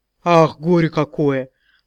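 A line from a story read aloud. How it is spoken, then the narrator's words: Sighing booming bass. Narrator (Russian): вздохнула гулким басом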